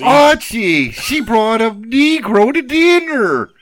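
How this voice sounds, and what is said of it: Imitates a sitcom character's voice. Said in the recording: “Is that how I should have done it? ... Edith Bunker?”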